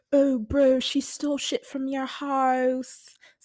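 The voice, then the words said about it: Put-on British accent. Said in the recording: “Sorry, my British accent.”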